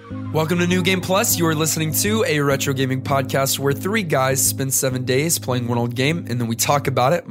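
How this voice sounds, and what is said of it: Weak, recovering voice after flu. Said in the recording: “my voice is slowly coming back ... Just my voice just went away ... I had the flu”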